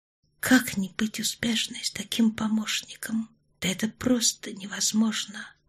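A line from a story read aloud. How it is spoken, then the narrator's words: Hoarse rasping whisper. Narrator (Russian): прошептала она и сама поразилась хрипу своего голоса, как у прокуренного матроса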